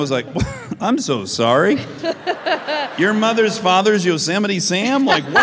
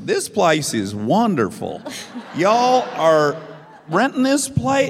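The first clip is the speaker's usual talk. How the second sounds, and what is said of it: Imitated strong Southern accent. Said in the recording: “Your mom had a Southern accent ... Has such a strong Southern accent”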